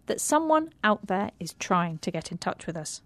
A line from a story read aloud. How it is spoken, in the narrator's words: said Annie firmly